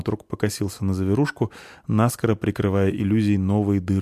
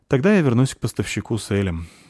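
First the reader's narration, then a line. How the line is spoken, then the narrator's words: Sigh. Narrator (Russian): вздохнула спичка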